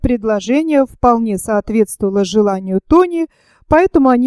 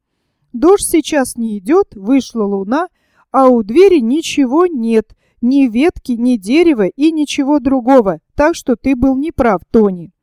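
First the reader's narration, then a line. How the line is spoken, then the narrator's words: Satisfied exclamation. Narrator (Russian): Рэйчел воскликнула удовлетворенно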